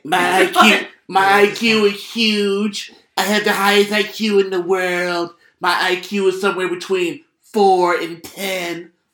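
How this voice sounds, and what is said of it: Pretty good impression. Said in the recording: “That's a pretty good impression.”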